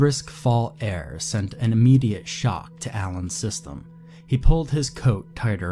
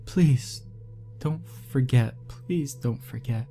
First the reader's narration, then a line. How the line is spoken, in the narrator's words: murmuring through her tears, pleading